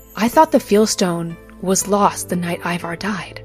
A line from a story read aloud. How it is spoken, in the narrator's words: Varian finally whispered